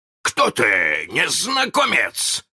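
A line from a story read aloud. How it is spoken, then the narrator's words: Shouted. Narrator (Russian): закричал он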